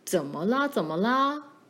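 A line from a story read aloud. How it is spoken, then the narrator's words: Plain. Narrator (Chinese): 爸说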